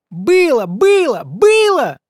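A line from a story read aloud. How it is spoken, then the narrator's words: Yelling. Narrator (Russian): заорал Петька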